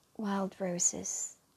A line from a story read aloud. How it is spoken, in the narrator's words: said in an almost whisper